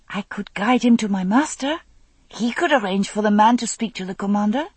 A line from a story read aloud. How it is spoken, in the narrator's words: he said eagerly